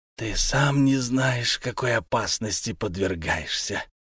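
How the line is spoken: Hissed, frightened. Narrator (Russian): прошипел Мурскул, затравленно озираясь

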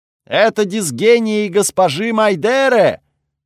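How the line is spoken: Delighted shout. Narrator (Russian): с восторгом крикнули позади меня

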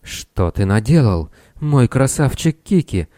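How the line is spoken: Moaning. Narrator (Russian): она застонала

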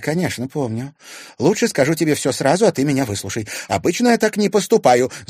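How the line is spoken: Rapid chatter. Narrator (Russian): затараторила Женя

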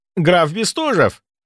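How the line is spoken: Babbling while running up. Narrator (Russian): пролепетал он, подбегая

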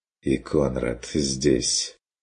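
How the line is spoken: Quiet remark. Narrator (Russian): тихо заметил фон Вегерхоф

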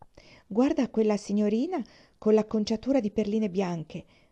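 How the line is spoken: Whispered. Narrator (Italian): bisbigliò Catherine

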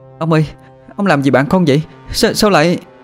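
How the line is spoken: Shout. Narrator (Vietnamese): Nó nhìn ông Quang mà hét lên

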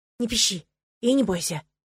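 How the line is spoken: Whisper. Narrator (Russian): прошептал он

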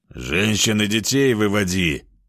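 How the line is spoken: Growl. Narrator (Russian): рыкнул

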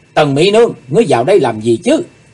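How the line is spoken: Dazed sudden shout. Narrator (Vietnamese): Chí Tôn cảm thấy như vừa hít xong một cuộn khói mê hồn, chàng bỗng hét lên

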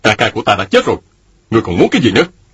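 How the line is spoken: Angry. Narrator (Vietnamese): Mạnh Đào giận dữ nói

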